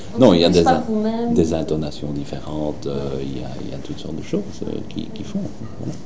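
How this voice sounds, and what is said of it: Walloon Belgian French accent. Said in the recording (French): “J'ai un accent wallon. ... quand je ne me surveille pas, il est atroce”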